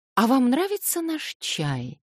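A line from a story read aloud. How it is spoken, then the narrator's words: Honeyed voice. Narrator (Russian): спросила медовым голоском Александра Семеновна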